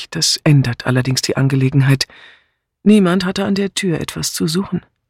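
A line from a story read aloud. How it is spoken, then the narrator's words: Calm remark. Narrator (German): meinte sie ruhig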